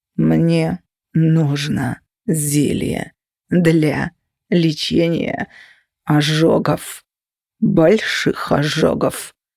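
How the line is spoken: Customer's words through teeth. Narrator (Russian): процедил клиент

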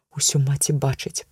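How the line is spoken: Hopeless male mutter. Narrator (Belarusian): прамармытаў, але цяпер без колішнай абнадзейнасці

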